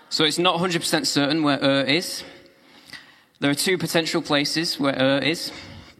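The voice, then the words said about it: Speaker's own regional accent. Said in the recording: “I think that word sounds great in my accent, doesn't it? Ur. I have trouble saying air ... if you've got a nice Scottish lilt, you can go Ir. But I can't. I have to go Ur.”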